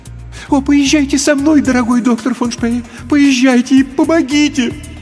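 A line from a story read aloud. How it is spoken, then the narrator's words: Pleading. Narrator (Russian): взмолилась женщина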